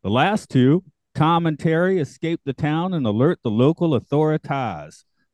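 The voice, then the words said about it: Mixed Southern accents with Cajun. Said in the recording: “That's a couple of accents. ... I definitely threw some Cajun in there somewhere.”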